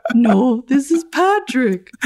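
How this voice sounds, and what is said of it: Impression of a character's voice. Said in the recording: “I can do a good impression of Patrick.”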